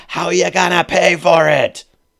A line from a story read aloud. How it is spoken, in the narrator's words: shout